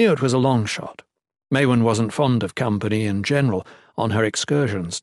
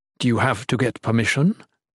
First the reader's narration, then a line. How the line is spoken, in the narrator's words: she asked